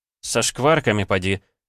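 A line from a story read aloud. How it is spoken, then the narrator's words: Snorting. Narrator (Russian): хмыкнул я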